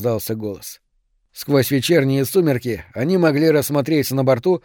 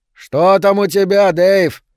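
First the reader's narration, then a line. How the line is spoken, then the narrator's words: Shouted. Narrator (Russian): крикнул Гэри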